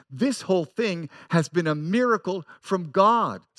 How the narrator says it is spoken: Scott says

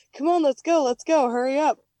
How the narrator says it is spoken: An accomplice can be heard chuckling in the background and yelling

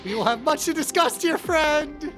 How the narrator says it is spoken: Jasper just smiles so happily and says

